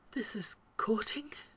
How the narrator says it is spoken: Rodney asks at last, voice little more than a whisper

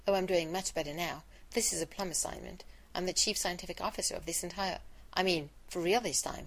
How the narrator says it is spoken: And Rodney hastily said

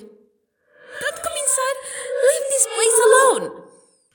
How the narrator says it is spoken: With a ghastly shrill voice, she screamed

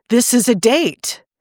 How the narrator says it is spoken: Rodney blurted

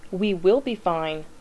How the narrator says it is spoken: the teenager snaps

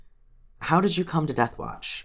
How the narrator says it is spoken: asked gently

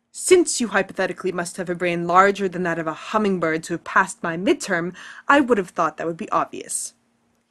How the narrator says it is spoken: snaps

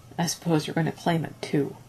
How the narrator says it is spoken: grumbled

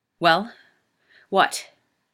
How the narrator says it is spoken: Rodney snarls

